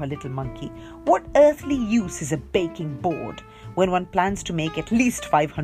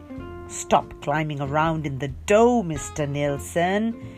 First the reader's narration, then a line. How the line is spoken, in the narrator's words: said crossly